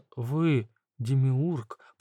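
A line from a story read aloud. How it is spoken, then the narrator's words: Whispered. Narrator (Russian): прошептала Навсекая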